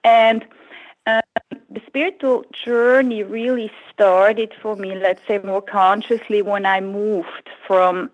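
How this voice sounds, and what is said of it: Foreign accent in English. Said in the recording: “you have some kind of accent.”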